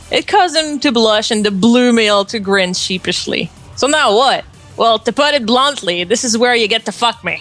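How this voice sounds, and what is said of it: Good pseudo-New York accent. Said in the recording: “You actually have a really good pseudo-New York accent.”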